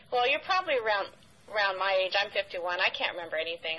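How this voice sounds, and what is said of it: High, youthful-sounding voice. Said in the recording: “You sound like you're 25. ... I have a very high voice”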